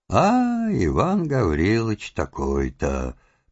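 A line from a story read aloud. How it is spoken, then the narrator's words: Muffled muttering to himself. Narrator (Russian): повторяет он глухо про себя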